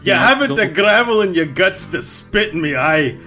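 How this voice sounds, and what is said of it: Put-on Scottish accent. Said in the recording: “You're trying to do some kind of British Isles accent. ... It's more a Scottish accent. ... I'm trying a Scottish accent like the Simpsons janitor.”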